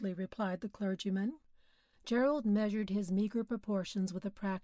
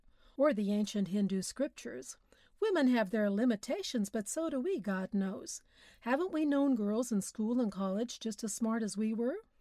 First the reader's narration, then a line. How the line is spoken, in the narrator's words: he suggested dryly